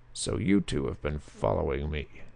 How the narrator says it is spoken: he snarled

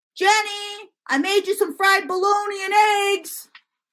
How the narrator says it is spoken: My dad yells from the kitchen

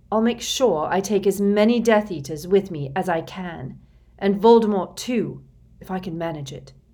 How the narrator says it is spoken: he said fiercely

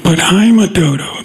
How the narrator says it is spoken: the dodo said

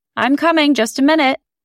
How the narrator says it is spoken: She yelled back to me

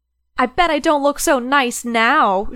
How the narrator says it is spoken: she shouted

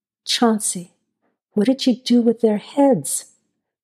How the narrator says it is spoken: Todd asked in a soft, quiet voice, a voice that sounded out of place, almost eerie

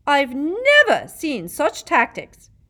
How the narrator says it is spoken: Madam Hooch screeched

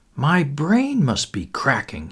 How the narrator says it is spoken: he murmured

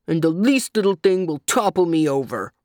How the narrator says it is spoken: grumbled the monkey

